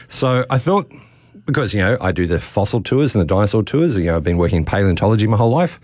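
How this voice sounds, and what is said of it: Worn-out, tired voice. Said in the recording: “It's been a very busy school holidays... you can probably hear it in my voice. I've done lots and lots of talks”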